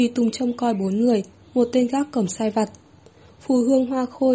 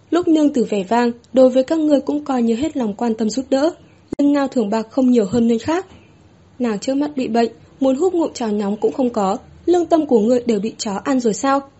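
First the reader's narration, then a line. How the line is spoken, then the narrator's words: Cold loud demand. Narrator (Vietnamese): Mai nhìn lạnh mặt, lớn tiếng chất vấn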